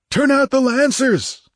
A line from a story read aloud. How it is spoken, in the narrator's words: roared